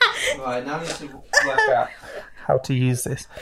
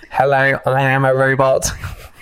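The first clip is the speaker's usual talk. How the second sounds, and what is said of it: Nasal robot voice. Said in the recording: “you sounded like a robot ... I will continue to talk like a robot ... It's very nasal.”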